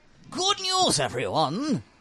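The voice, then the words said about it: Impression of a Futurama character. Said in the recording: “your best impression? ... Do you guys watch Futurama?”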